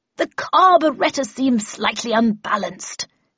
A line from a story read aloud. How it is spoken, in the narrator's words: she bellowed above the terrified screams of pedestrians